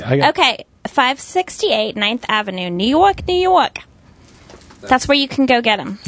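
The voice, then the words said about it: Speaks in a put-on accent. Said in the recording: “Nice accent.”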